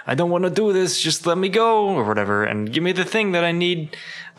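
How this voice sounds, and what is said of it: Put-on New York accent. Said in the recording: “this New York accent you put on Booker ... something East Coast ish”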